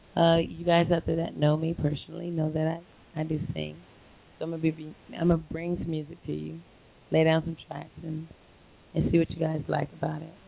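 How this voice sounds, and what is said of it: Hoarse voice. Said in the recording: “I'm a little hoarse because I've been singing pretty much all night ... I'm a little hoarse, so you guys can't really hear me that well”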